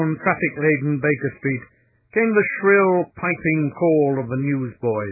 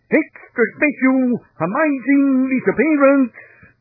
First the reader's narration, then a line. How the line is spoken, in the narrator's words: In the quaint jargon of the tribe, they called out loudly